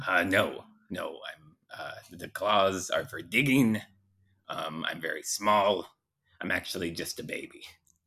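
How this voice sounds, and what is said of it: Old man's voice. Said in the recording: “You don't sound like a baby. You sound like an old man.”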